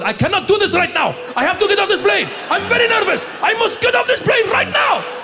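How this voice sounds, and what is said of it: Thick put-on Egyptian accent. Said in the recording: “You're Egyptian ... Get a thick accent going.”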